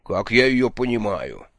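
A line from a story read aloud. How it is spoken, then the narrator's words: Dramatic exclamation. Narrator (Russian): патетически воскликнул Джуфин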